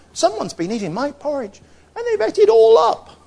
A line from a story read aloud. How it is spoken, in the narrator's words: the tiny little bear said in a squeaky voice